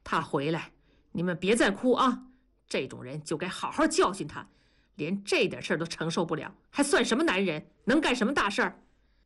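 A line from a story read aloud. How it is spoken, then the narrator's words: Heavy, stern. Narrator (Chinese): 同志的声音很重地说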